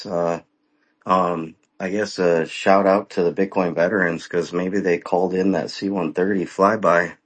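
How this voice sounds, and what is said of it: Hoarse, worn-out voice. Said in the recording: “My voice is gone. So I've got a little bit of a cold”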